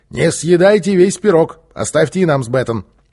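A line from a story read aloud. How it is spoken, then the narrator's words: Shouting. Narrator (Russian): крикнул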